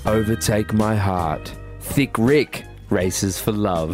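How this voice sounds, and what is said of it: Exaggerated sultry sexy voice. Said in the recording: “sexy voice on.”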